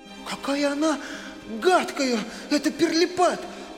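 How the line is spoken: Fervent exclamation. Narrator (Russian): с жаром воскликнула Мари

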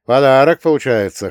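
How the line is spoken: Wry grunt. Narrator (Russian): хмыкнул я

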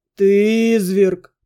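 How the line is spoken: Groaning. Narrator (Russian): простонал друг

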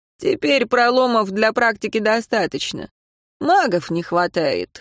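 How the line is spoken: Snorting. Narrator (Russian): хмыкнул он

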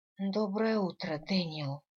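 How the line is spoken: Hoarse reply. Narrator (Russian): хриплым голосом отозвалась я

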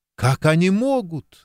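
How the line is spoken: Bursting into sobs. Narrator (Russian): разрыдалась Джанет

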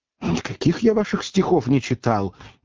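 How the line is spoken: Nervous exclamation. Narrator (Russian): нервно воскликнул посетитель

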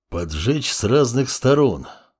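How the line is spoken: Thoughtful muttering wolf. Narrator (Russian): задумчиво пробормотал волк

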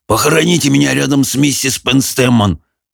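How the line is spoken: Hoarse wheeze. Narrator (Russian): прохрипел он

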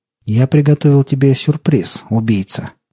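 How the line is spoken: Solemn voice. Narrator (Russian): торжественно сказал голос

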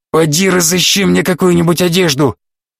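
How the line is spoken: Hoarse wheeze. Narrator (Russian): прохрипев охраннику

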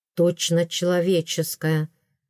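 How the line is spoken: Muttered. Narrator (Russian): пробормотал наследник

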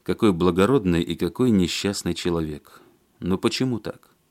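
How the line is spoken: Sad. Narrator (Russian): Алексей грустно сказал

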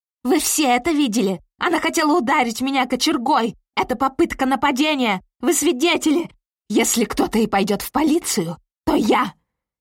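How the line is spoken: Shouting. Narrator (Russian): кричала Кэролайн

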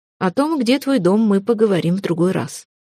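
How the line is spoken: Calm curt reply. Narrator (Russian): спокойно отрезал ее отец

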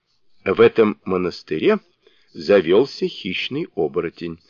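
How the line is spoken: Calm. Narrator (Russian): спокойно ответил Сунь-Укун

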